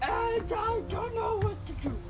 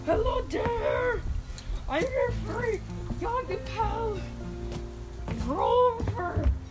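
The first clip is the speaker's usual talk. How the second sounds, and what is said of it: Grover character voice. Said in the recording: “in a Grover voice”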